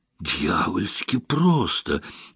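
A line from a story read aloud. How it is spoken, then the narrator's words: Baffled mutter. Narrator (Russian): с недоумением пробормотал он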